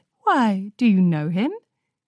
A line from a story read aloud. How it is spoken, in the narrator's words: Twilight chuckled